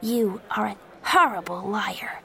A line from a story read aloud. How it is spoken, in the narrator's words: Joey said quietly